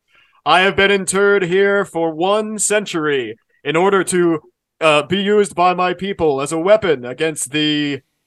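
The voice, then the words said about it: Character voice. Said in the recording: “in his character voice.”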